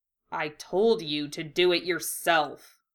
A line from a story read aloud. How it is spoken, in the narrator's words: Hiei grumbled